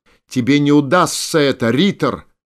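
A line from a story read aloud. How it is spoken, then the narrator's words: Shout. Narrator (Russian): крикнул кто-то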